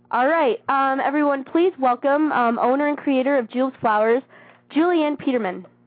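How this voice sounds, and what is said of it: Sounds a little weird from a cold. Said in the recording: “I am sick. I have a little cold, so I might sound a little weird”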